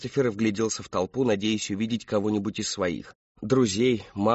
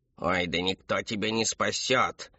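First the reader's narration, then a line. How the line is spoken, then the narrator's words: Scornful snort. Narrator (Russian): фыркнул доктор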